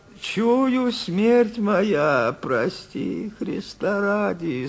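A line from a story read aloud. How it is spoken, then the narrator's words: Tearful voice. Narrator (Russian): сказал Никита плачущим голосом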